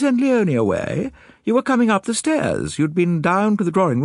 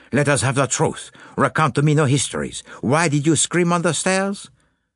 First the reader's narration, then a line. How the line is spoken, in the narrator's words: said Poirot in a brisk tone